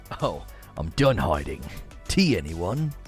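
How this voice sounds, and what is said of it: Put-on British accent. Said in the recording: “Fall back to your accent. ... do it in a British accent”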